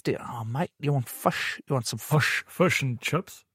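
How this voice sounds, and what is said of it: Put-on New Zealand accent. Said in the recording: “I find doing a Kiwi accent really difficult, actually... Whereas the Kiwi seem to, it's the same, but not.”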